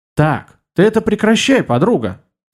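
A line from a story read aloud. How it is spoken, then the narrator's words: Stern. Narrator (Russian): произнесла Ариша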